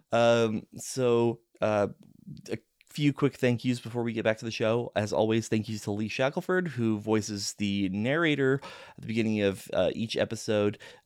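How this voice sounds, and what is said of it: Hoarse voice cutting in and out. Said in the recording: “As you can hear, my voice is going in and out a little bit”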